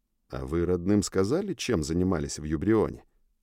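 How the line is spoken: Quiet question. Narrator (Russian): тихо спросил я у Зака и Майла

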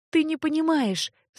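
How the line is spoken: Sobbing. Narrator (Russian): всхлипнула Леа

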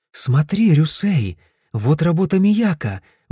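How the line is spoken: Exclamation. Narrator (Russian): воскликнула Фумине

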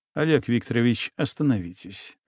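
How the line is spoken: Gentle interruption. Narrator (Russian): мягко прервал его Егор

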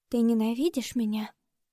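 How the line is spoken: Near-whispered question. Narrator (Russian): Почти шепотом спрашивает она

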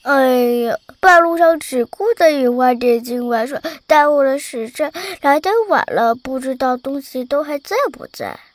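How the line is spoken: Breathless childish mumble. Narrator (Chinese): 伴随着匆匆的脚步声、喘息声，以及一句嫩声嫩气的嘟囔

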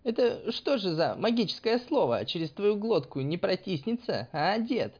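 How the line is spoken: Laughing, mocking. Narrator (Russian): Засмеялась Искра

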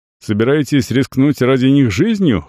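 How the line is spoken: Young man's smirking grunt. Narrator (Russian): хмыкнул молодой пират

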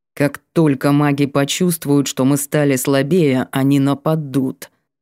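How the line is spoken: Said through gritted teeth. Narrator (Russian): процедил

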